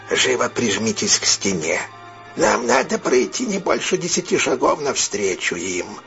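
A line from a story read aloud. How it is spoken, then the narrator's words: Whispered. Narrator (Russian): Сэмми Мэс сказал шепотом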